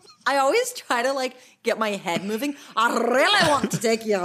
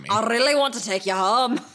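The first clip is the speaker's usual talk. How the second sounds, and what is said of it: Put-on Scottish accent. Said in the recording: “Scottish accent”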